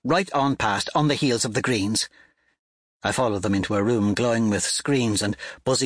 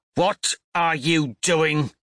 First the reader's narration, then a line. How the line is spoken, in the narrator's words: snarls in my face